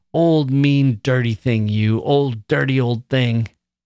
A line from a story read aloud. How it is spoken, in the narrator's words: I screamed